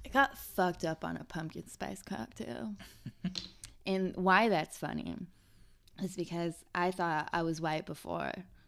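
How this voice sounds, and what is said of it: Strained voice, losing her voice. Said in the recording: “I am actually losing my voice”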